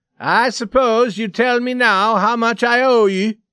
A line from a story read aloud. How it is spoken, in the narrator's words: he said loudly to Scully